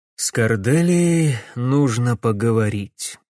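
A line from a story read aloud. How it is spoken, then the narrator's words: Tired sigh. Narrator (Russian): магистр устало вздохнул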